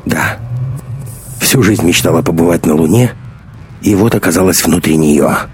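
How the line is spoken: Grim joking. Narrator (Russian): мрачно пошутила Маруся

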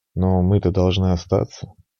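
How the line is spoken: Quiet, smiling. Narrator (Russian): она тихо улыбнулась

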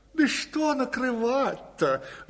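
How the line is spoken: Sighing. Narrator (Russian): вздохнула хозяйка

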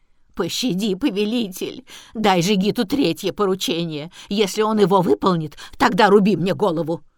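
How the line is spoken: Wailing plea. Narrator (Russian): завопила

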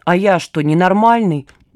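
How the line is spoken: Displeased grumble. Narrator (Russian): недовольно буркнул Саня

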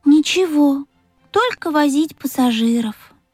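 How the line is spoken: Sighing. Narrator (Russian): вздохнул Пых

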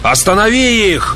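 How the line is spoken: Shout to oneself. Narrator (Russian): Закричал я главным образом самому себе

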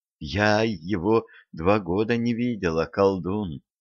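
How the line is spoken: Subdued whisper. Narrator (Russian): заметно притихнув, прошептала Любава

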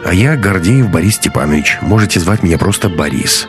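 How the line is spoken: Plain. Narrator (Russian): сказал парень

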